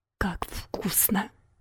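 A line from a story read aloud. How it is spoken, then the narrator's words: Whisper with full mouth. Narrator (Russian): прошептала она с набитым ртом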